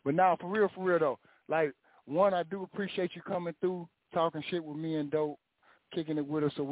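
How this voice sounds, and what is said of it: Usual voice. Nothing is said of it.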